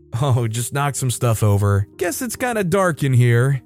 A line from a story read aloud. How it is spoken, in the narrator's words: I told her with a laugh